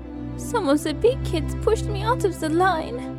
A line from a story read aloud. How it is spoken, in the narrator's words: she sobbed